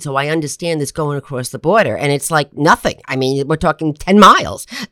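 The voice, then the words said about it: New Jersey accent. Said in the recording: “I'm a Jersey girl from my accent.”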